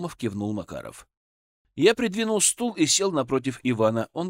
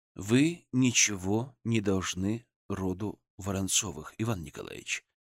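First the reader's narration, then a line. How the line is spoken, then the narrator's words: Gentle, imitating healer. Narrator (Russian): мягко сказал, копируя интонации целителя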